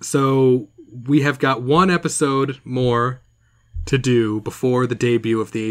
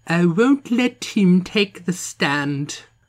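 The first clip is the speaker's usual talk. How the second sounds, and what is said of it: Imitates an actress's put-on accent. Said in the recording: “the accent she was trying to do, and just her performance is like ... God, that was spot on.”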